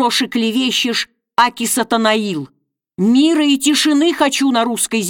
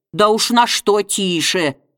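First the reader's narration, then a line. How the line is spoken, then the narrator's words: Sarcastic. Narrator (Russian): язвительно ответил гончар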